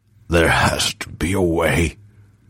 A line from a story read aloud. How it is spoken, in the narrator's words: he rasped